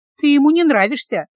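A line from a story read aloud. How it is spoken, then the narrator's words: Sighing. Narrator (Russian): вздохнула Миа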